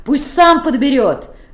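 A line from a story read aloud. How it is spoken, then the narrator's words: Shouting. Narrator (Russian): крикнула Сашенька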